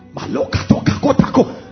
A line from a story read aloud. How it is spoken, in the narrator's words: Oyedepo shouting